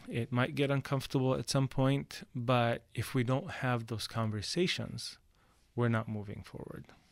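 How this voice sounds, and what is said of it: English with slight foreign accent. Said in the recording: “speak, you know, English with a slight accent”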